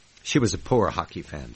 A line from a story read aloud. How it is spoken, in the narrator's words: said Trifia